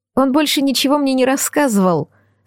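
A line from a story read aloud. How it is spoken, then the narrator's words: Tearful babbling. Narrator (Russian): сквозь слезы пролепетала Джулия Дрейк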